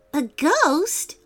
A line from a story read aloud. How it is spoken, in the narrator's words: yelped Malcolm